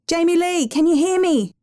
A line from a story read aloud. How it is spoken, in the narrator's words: he shouted